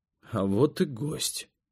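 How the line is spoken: Quiet. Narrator (Russian): тихо сказал я

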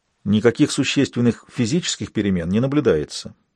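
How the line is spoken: Low voice. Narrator (Russian): продолжал Мартин вполголоса

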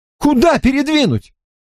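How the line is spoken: Shouting. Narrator (Russian): закричал Хедли Брайт

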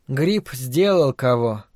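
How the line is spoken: Mutter. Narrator (Russian): пробормотала Фрэн

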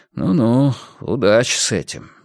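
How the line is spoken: Sighing. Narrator (Russian): вздохнул Мунк

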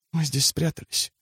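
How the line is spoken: Whisper. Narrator (Russian): шепнула она

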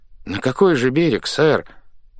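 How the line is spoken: Glum. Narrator (Russian): уныло толковал старпом

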